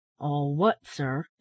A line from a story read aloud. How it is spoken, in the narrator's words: inquired the old gentleman, in a deep, metallic voice